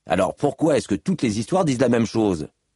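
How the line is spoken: Insistent question. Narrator (French): demanda Scar d'un ton insistant

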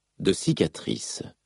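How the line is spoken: Murmured. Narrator (French): murmura Kaladin

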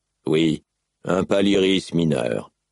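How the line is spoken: Sighing reply. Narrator (French): répondit Dalinar en soupirant

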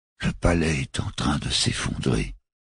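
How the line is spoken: Murmured. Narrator (French): avait murmuré Francis Tobog

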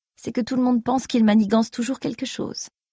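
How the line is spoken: Sighing to himself. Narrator (French): se dit Saren en soupirant

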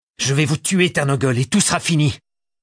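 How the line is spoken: Yelling. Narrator (French): hurla

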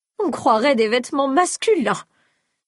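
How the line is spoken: Indignant exclamation. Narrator (French): s'écria Séaden avec des oscillations indignées de son double menton

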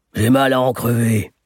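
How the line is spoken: Grumbled. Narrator (French): grommela M

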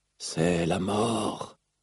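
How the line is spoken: Whispered. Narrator (French): chuchota Rlaïn

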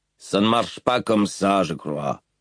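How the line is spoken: Grumbling. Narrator (French): grommela Rock

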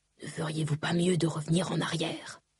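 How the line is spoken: Quiet whispered question. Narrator (French): demanda tout bas Vatat

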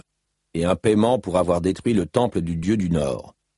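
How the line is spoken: Man grumbling. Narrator (French): grommela l'homme

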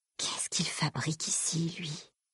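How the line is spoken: Breathy whisper. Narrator (French): souffla-t-elle

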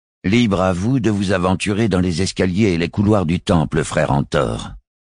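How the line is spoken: Hissing vicar. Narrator (French): siffla le vicaire

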